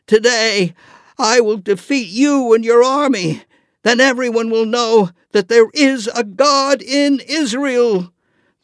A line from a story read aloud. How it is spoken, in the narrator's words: David shouted